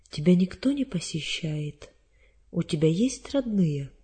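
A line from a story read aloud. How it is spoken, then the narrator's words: Gentle question. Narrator (Russian): Елизавета Николаевна ласково спросила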